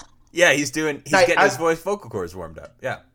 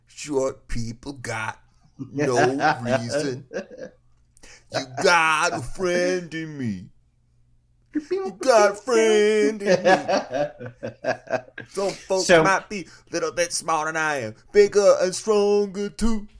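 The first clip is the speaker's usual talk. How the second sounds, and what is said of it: Sung imitation of another person's voice. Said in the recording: “That's a good impression. ... That's my Randy Newman”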